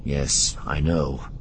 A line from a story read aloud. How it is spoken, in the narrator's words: Luke agreed, his tone a little uneasy